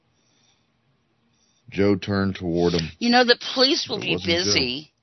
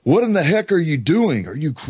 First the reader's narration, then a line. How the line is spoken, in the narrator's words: he yelled out to his friend